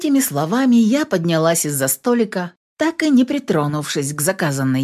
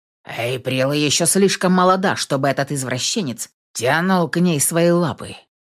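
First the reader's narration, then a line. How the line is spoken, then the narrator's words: Growl. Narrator (Russian): прорычал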